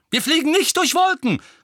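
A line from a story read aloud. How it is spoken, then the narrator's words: Angry exclamation. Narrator (German): rief Tonks erbost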